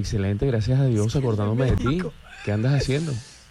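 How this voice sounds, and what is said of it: Put-on Mexican accent. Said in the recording (Spanish): “acento mexicano? ... Hablé mexicano.”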